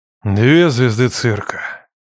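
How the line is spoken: Resigned grumble. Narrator (Russian): проворчал директор, сдаваясь

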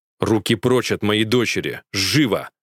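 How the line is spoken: Commanding, intimidating. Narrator (Russian): приказывает Итан властным тоном, который напугает любого

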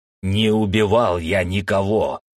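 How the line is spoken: Hoarse roar. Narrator (Russian): хрипло проревел я

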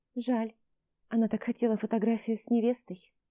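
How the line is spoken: Sighing. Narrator (Russian): вздохнула Алена

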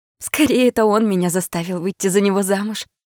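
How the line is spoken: Laughing. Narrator (Russian): рассмеялась я

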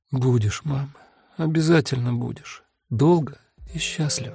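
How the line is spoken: Quietly crying, through tears. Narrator (Russian): Плачет тихо и сквозь слезы отвечает

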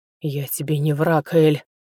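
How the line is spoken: Hoarse whisper. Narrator (Russian): хриплым шепотом произнес он

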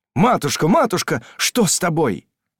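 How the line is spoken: Desperate exclamation. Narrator (Russian): воскликнул он голосом, полным отчаяния

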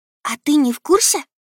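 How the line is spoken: Rapid whisper. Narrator (Russian): Шепотом тараторит Настасья

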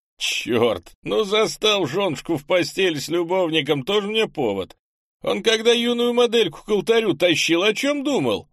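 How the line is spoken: Laughing chuckle. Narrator (Russian): хохотнул Монди

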